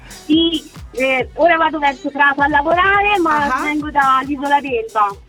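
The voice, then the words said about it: Tuscan Italian accent. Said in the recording (Italian): “sento un accento toscano”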